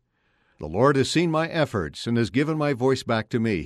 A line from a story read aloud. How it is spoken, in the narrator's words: he said